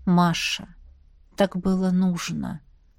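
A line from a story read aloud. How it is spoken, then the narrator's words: Tired. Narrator (Russian): устало произнес он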